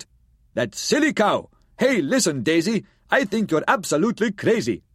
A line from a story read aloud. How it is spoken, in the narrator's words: This fellow, standing in the crowd, raised up his voice and yelled aloud